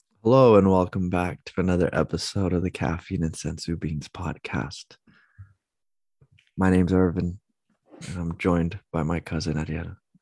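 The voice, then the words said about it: Sultry put-on radio voice. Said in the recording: “Such a sensual intro today ... I don't have much of a radio voice ... I did my best there with the introduction”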